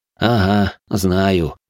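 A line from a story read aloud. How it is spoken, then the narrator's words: Snort. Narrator (Russian): хмыкнул я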